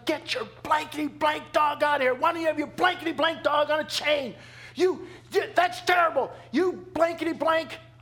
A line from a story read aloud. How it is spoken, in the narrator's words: This lady just looked at Linda and just started cursing and just yelling